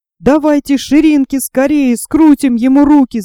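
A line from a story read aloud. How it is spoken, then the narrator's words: Shout. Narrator (Russian): закричал он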